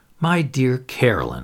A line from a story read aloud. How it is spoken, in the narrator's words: I said irritably